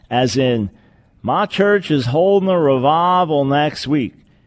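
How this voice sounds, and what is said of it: Put-on Southern American accent. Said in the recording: “why the southern accent?”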